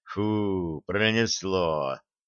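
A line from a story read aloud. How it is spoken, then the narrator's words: Relieved exhale. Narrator (Russian): с облегчением выдохнул Черныш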